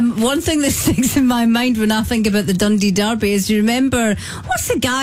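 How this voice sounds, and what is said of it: Usual voice. Nothing is said of it.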